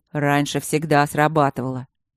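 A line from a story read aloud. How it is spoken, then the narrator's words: Snorting. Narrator (Russian): Алина фыркнула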